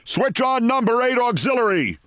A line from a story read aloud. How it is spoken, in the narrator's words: he shouted